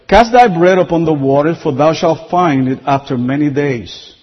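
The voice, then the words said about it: Speaker's own accented English. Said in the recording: “you heard these things before, but not with my accent”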